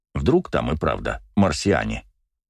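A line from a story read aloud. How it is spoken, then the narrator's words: Indignant snort. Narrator (Russian): Слободанка возмущенно фыркнула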